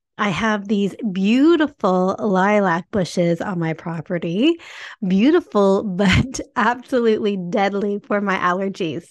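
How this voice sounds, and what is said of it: Congested, stuffy-nosed voice. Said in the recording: “I'm sorry if I sound a little congested. ... I'm in full congestion”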